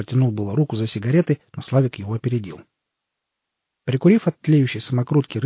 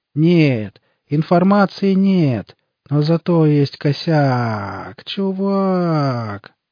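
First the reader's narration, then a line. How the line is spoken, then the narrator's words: Drawled. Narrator (Russian): протянул странный тип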